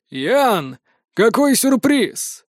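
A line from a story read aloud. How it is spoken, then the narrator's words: Husky voice. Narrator (Russian): Со все той же хрипотцой в голосе обратился к юноше он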